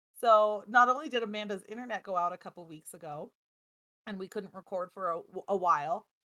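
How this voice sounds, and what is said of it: Sickly-sounding voice. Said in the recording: “my voice is a little bit like yours, a little uneasy. Sickly sounding, at least to me.”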